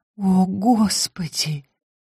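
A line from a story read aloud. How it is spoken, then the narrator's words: Breathless, voice breaking. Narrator (Russian): выдохнула Мария, и голос у нее сорвался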